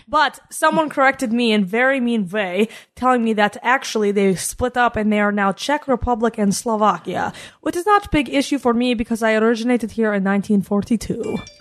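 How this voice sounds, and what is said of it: Put-on Czechoslovakian accent. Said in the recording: “So where does this accent originate from? ... I'm a Czechoslovakian woman”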